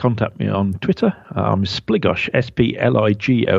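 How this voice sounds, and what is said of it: Usual voice. Nothing is said of it.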